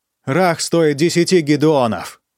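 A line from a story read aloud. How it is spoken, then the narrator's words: Shouting. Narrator (Russian): крикнул он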